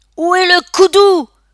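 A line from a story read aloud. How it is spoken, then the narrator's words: Roar. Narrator (French): rugit Alex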